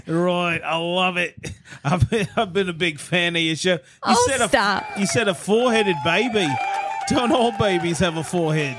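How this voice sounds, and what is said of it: Australian accent. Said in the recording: “Are you from the South? What is that amazing accent? ... I'm from Adelaide. ... It's the land of Oz down under, mate.”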